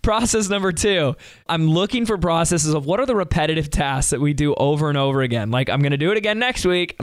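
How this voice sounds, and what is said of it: Voice sounds off, unwell. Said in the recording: “do I sound like a different person with my voice? ... It doesn't sound anything like him. ... Something's wrong with my voice. It's okay. I'll be better soon.”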